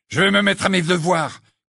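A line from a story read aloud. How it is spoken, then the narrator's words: Furious interruption. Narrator (French): coupa Ron d'un ton furieux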